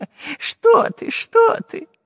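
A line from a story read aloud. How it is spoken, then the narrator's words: Laughing. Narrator (Russian): засмеялся профессор Пыхтелкин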